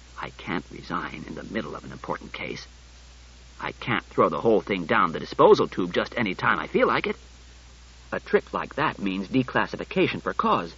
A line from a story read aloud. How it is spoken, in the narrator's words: Bailey said coldly